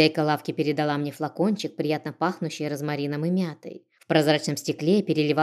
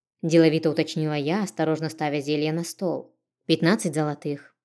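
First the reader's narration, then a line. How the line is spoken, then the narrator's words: Calm reply. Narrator (Russian): спокойно ответила мне девушка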